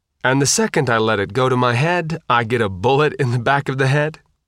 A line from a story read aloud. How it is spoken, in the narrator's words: Isham said with a dry laugh